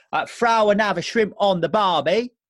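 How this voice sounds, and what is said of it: Poor put-on Australian accent. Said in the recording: “It's my Australian accent. ... It's not your greatest skill. ... No, it's not really.”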